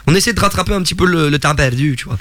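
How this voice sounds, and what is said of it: Imperfect put-on Québécois accent. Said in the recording (French): “Est-ce que je fais bien l'accent québécois ou pas? ... Faut encore travailler un peu.”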